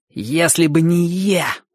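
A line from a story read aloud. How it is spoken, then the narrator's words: Contemptuous boyish hiss. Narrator (Russian): презрительно прошипел мальчик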